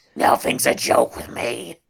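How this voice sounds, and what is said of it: Vince McMahon impression. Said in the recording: “Vince McMahon is here. ... it's Vince McMahon. ... I had to do the voice. I had to do the voice.”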